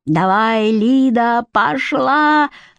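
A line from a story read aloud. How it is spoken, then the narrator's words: Hoarse strained man's shout. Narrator (Russian): надрывая хриплый голос, кричал режиссер, вальяжный осанистый мужчина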